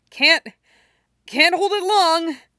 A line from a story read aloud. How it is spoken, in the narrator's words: gasps